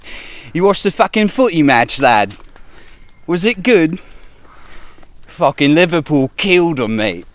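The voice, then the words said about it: Cringy put-on Liverpool accent. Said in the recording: “It's a cringy accent. ... like Donald Trump pretending to be from the UK ... I need to work on my Liverpool accent”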